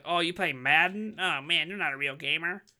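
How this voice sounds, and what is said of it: Mocking impersonation of other people. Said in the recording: “It's a great, like, great impersonation of people.”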